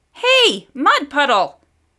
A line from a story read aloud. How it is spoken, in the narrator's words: she yelled even louder